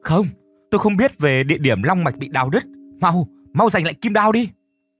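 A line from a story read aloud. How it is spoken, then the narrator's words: Shouting. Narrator (Vietnamese): chị Mai hét lên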